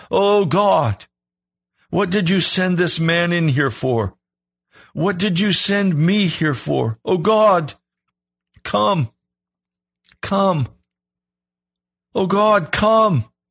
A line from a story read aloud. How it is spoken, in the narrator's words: Unable to hang on any longer, I ... cried out